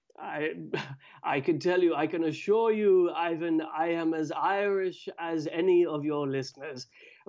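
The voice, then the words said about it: Posh Anglo-Irish accent. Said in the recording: “you sound like a proper West Brit ... like a proper toff”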